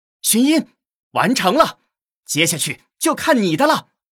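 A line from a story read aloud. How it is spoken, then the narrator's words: Happy cry. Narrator (Chinese): 齐武开心的叫道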